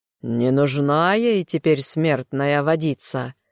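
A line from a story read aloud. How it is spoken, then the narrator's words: Growl. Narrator (Russian): змей прорычал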